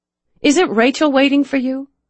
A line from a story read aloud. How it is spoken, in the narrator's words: She asked anxiously